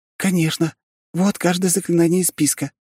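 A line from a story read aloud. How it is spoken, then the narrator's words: Exclaimed. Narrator (Russian): воскликнула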